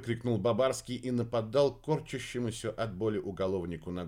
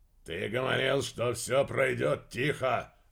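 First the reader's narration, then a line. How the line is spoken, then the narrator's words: Barking. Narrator (Russian): рявкнул Крачин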